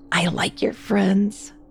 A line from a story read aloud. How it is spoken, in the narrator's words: she whispered